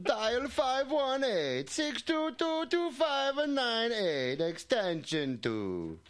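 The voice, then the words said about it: Poor Mario-style cartoon accent. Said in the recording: “Can you do it in the accent of Mario from Mario Brothers? ... That was terrible”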